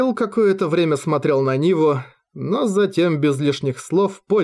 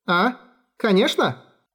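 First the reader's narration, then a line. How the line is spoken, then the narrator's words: Cheerful reply. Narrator (Russian): Бодро отозвалась та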